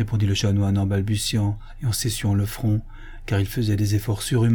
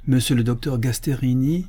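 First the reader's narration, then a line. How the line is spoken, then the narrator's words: Priest exclaims. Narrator (French): s'écria l'abbé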